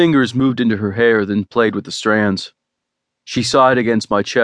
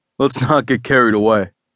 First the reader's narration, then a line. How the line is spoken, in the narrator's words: said with a laugh